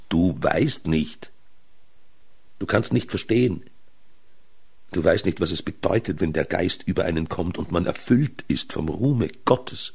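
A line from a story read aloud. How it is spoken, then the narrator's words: Exclaiming man. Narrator (German): Er aber rief aus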